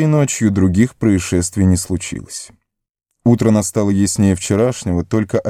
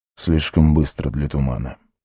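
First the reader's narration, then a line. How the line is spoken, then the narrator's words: Muttered. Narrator (Russian): пробормотал Арагорн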